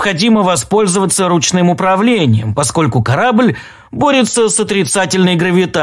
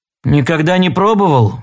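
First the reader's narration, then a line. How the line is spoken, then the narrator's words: Gloomy reply. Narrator (Russian): мрачно ответил Холл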